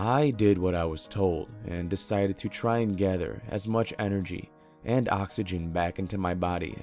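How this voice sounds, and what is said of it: Usual voice. Nothing is said of it.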